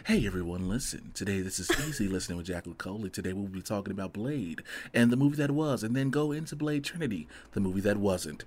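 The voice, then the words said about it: Soothing, smooth radio-host voice. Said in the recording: “your voice is so comforting ... That's your radio voice.”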